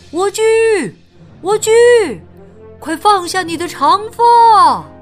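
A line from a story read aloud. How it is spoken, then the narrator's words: Prince calling out. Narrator (Chinese): 王子喊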